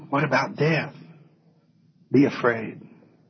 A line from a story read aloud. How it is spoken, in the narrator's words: Satan whispers